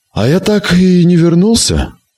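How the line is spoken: Answered with heavy sigh. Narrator (Russian): ответил Керрик, тяжело вздохнув

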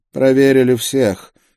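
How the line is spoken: Weary inquisitor speaking. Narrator (Russian): сказал инквизитор, устало

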